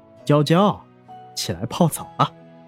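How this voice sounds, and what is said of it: Soft, quiet calling. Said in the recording (Chinese): “小声的轻唤着”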